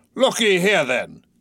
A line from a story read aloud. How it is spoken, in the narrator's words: cried Ahab, passionately